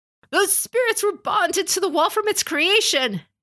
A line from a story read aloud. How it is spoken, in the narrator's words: Ujiaki exclaimed